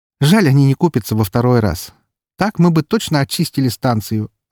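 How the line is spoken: Laughing. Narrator (Russian): рассмеялась Валькирия

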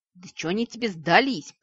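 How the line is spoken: Growled. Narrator (Russian): прорычал Вик

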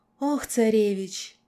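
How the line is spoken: Convulsive gasp. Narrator (Russian): судорожно выдохнула

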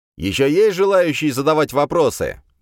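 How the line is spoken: Loud question, demon language. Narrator (Russian): громко спросил я на языке демонов

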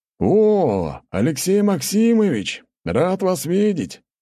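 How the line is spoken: Booming across the hall. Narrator (Russian): через весь зал прогремел голос князя

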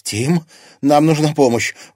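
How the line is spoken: Anxious breathless. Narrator (Russian): взволнованно выдохнула Тесса

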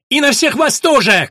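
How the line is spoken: Shouted. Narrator (Russian): крикнула она

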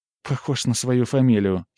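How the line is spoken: Mischievous giggle. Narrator (Russian): хихикнула Жозефина, и в глазах у нее мелькнуло ехидное озорство

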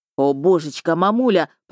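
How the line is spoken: Moaning big lad. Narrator (Russian): простонал детинушка

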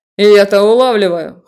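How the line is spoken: Amused snort. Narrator (Russian): хмыкнул Себастьян

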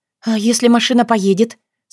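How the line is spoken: Frightened question. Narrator (Russian): Спрашиваю испуганно

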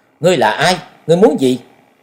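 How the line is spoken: Stern loud female shout. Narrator (Vietnamese): Nàng nghiêm giọng quát lớn

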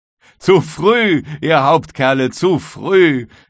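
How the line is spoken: Call with loud laugh. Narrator (German): rief James Playfair und lachte laut auf

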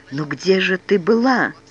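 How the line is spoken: Confused mumble. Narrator (Russian): как-то растерялся и лишь пробормотал

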